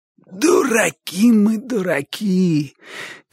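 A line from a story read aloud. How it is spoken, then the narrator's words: Hoarse shout. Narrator (Russian): крикнул он сиплым голосом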